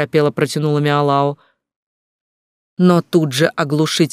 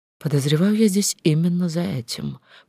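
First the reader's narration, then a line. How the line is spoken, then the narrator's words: Unenthusiastic mutter. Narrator (Russian): пробормотала без особого энтузиазма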